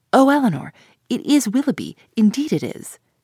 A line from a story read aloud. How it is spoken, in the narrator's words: In the ecstasy of her feelings, exclaiming